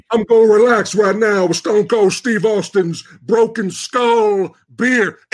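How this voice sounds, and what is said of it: Imitates another person's voice. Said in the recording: “That's actually a very good impression.”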